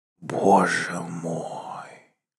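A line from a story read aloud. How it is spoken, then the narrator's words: Whisper. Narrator (Russian): прошептал он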